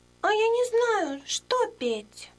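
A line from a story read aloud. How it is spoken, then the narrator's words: Chick squeaking. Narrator (Russian): пискнул птенец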